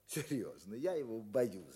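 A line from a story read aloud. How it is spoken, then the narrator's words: Laughing, gleeful speech. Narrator (Russian): говорил он, смеясь, как бы радуясь этой боязни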